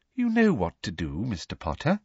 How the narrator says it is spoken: said Umbridge, smiling sweetly at him

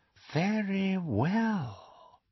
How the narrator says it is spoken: said Voldemort, and Harry heard more danger in the silkiness of his voice than in the most powerful curse

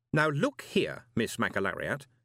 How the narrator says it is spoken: he said firmly

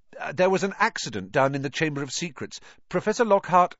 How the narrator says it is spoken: Ron said quickly

